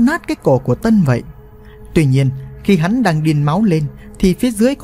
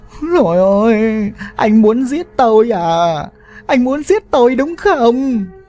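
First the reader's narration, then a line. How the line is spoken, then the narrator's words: Coughing, wailing woman. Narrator (Vietnamese): Vừa nói, mụ vừa ho lên khủ khủ, khóc lóc rất thảm thiết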